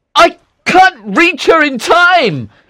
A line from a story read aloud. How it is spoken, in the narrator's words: he shouted